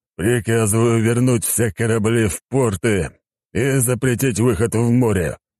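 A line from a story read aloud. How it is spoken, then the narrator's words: Deep-voiced old man. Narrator (Russian): пробасил старик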